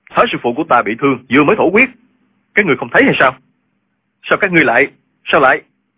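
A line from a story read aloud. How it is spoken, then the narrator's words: Worried, exasperated shout. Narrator (Vietnamese): Tri khách đạo sĩ của phái Võ Đan là Linh Hư lo lắng cho thương thế của thái sư phụ, không còn nhịn nổi nữa, quát lên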